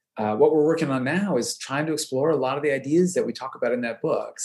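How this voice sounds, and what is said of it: Non-Australian accent. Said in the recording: “as you can tell by my accent, I didn't grow up here”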